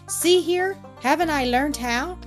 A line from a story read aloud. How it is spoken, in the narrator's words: cried Rupert exultingly